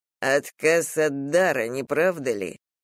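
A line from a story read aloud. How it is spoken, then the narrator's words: Gloomy. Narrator (Russian): мрачно предположил Томас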